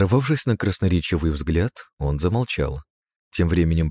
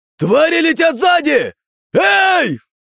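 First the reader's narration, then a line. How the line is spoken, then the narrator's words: Crowd shouting. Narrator (Russian): Не выдержав, наблюдающие за воздушным представлением люди закричали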